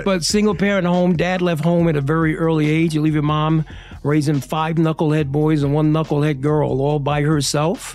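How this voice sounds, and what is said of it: Brooklyn New York accent. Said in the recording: “you can hear it when you say Brooklyn in that accent ... that's still there ... It's coming out even more.”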